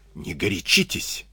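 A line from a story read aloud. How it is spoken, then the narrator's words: Whisper. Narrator (Russian): шепнул ему Клюгенау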